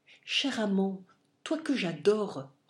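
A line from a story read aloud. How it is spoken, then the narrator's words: Enchanting tone. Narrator (French): reprit-elle d'un ton enchanteur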